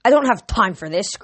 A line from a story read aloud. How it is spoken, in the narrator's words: Kronos snarled